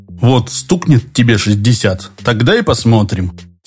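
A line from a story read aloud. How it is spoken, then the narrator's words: Angry. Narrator (Russian): сердито отозвался тот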